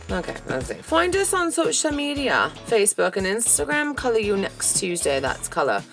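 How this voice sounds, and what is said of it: Put-on British accent. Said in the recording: “I'm going to do it in a British accent ... I'm no Gwyneth Paltrow”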